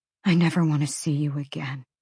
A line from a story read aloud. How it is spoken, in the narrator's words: she whispered